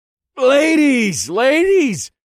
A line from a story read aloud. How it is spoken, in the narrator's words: I said in a loud voice